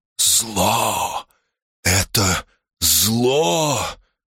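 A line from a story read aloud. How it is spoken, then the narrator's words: Fervent whisper. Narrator (Russian): с горячностью зашептал он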